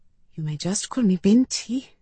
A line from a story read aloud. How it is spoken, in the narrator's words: I whispered